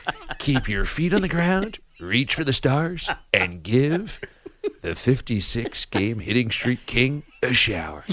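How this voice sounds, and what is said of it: Casey Kasem impression. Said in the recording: “I love that he's Casey Kasem. ... we have faded into a different impersonation. Casey Kasem now. ... Dick Vermeil is Casey Kasem as Pete Rose. Old guys get the same voice.”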